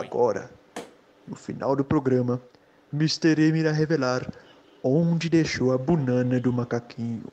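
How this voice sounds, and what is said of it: Imitates another person's voice. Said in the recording (Portuguese): “Olha que imitador, meu... Um dos melhores imitação que eu já vi de Cid Moreira”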